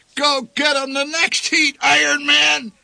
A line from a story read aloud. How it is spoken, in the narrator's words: bellowed the old man